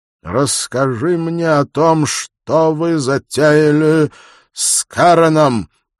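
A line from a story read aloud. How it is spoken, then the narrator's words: Loud and clear. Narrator (Russian): громко и отчетливо произнес Малькольм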